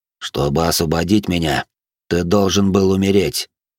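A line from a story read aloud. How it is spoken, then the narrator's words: Plain. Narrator (Russian): ответил белый дьявол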